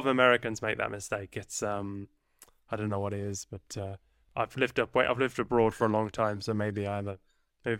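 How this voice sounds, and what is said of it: Diluted English accent, sounds Australian. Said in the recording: “your your your English sounds as though it comes from Australia ... I'm originally from England ... I've diluted”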